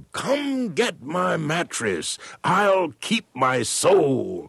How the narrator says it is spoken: this freedom rider shouted

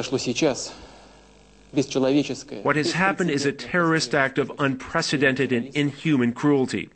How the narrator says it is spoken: Putin said

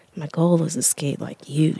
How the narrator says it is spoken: said, almost under her breath

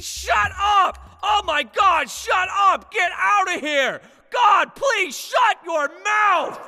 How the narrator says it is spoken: a soccer mom keeps screaming

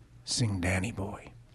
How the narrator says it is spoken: he says softly

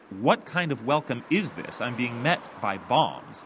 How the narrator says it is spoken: The Archduke snaps

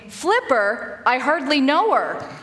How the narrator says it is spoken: One could interpret the dolphin's squeaks and pops as saying

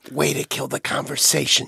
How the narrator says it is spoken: Jonathan whispered

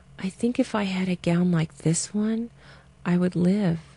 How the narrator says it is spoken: Eliza wheezed softly on the third day

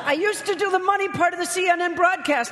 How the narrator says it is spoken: he wailed

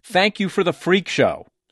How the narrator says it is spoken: Loughner suddenly screamed

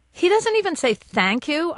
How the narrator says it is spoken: I blurt

